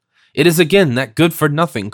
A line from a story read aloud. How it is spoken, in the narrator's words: cried the old lady